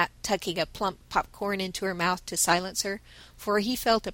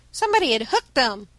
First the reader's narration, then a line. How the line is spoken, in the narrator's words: cried Ned